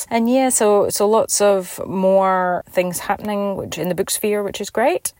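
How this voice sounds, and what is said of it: Scottish accent. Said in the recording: “I grew up in Scotland, hence the accent.”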